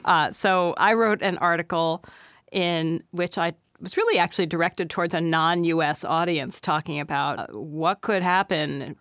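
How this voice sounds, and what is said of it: Slightly hoarse voice. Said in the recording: “I have a little bit of a cold, so I'm a little hoarse”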